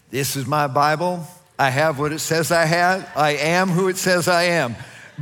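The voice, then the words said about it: Imitates another person's voice. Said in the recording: “my Joel Osteen impersonation”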